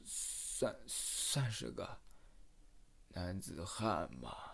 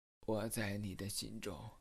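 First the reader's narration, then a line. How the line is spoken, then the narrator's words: Weak hollow voice. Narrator (Chinese): 小白脸男生艰难的，声音虚弱而空洞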